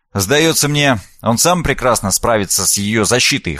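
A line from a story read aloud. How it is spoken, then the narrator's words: Wry snort. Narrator (Russian): хмыкнул Шойнц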